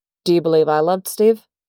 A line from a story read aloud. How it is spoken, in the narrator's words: Howard asks